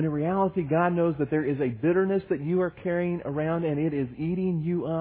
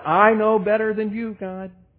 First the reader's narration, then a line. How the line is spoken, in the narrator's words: shouting